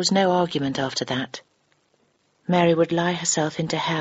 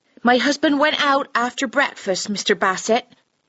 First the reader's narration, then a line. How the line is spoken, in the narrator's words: said, speaking unnaturally loudly and clearly